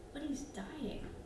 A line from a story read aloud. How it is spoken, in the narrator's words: I whispered